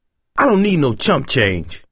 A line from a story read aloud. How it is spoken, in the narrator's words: Roland snapped